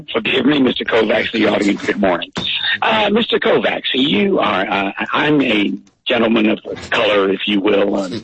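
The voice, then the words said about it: Hoarse voice. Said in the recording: “I'm hoarse.”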